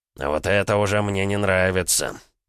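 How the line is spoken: Suddenly worried, no longer mocking. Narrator (Russian): забеспокоился Архип, разом сбросив насмешливо беззаботный вид

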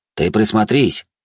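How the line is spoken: Short laugh. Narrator (Russian): хохотнул

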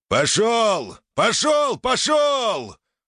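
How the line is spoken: Yelling. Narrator (Russian): орал лысый инструктор

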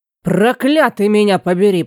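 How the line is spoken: Growled. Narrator (Russian): прорычал Фарни

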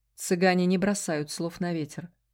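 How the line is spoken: Gloomy. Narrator (Russian): мрачно ответил мой спутник

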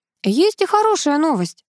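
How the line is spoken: Overly cheerful. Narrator (Russian): слишком бодро заговорил Сеня

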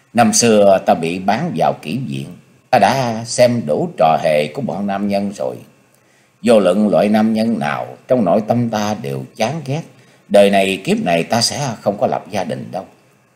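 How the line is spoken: Cold, pained woman's voice. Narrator (Vietnamese): trong mắt hiện lên tia đau khổ, nàng lạnh lùng nói

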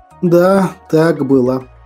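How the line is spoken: Slow reply. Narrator (Russian): медленно ответил Ариман, устало

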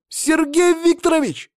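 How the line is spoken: Shouting. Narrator (Russian): закричал Саня

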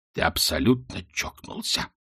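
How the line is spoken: Hoarse wheeze. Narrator (Russian): прохрипел Ринсвинд

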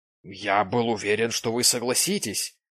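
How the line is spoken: Exclaiming. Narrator (Russian): воскликнул он

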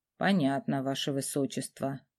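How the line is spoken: Grumbling escort. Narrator (Russian): буркнул сопровождающий

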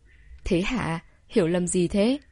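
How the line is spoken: Laughing question. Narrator (Vietnamese): Ông Đường Đại Vĩ bật cười hỏi

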